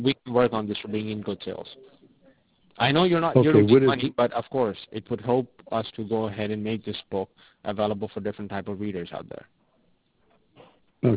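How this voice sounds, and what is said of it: Foreign accent in English. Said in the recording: “you have an accent. I'm picked up the accent... picking up your accent like you might be from either the Middle East or from the Far East”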